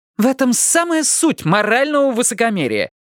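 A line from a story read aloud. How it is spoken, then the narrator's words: Triumphant exclamation. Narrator (Russian): торжествующе воскликнула жена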